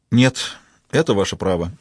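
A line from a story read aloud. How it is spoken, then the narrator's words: Sighing. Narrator (Russian): Хейдер вздохнул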